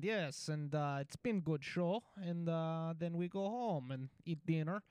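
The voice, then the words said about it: Put-on Russian accent. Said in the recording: “I can do an accent for you. I can't really speak Russian.”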